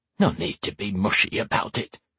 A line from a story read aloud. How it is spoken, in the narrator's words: she muttered